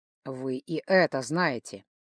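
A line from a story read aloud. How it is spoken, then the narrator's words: Magician grumbling. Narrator (Russian): пробурчал маг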